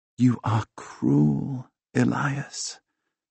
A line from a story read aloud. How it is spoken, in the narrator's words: she whispers against my mouth